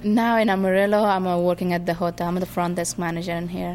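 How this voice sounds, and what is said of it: Afghan accent. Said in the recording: “he was asking me where my accent from, and I said, I'm from Afghanistan.”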